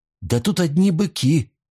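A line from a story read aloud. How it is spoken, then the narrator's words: Exclamation. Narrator (Russian): воскликнула она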